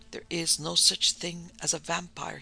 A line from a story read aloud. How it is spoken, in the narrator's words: whispered to himself